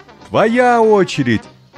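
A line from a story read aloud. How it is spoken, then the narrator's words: Shouting together. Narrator (Russian): закричали Ася с папой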